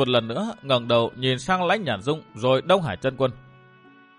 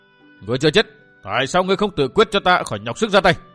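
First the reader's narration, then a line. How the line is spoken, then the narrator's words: Loud shout. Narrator (Vietnamese): Đông Hải Chân Quân hét vang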